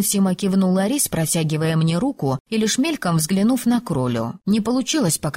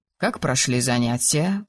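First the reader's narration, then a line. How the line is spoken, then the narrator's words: Calm question. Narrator (Russian): спокойно спросил Арис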